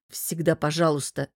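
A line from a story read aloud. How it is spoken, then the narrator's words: Sullen, forced. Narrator (Russian): насупившись, выдавил я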